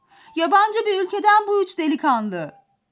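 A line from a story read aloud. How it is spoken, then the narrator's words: Market seller shouting. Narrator (Turkish): diye bağırmış pazarcılardan biri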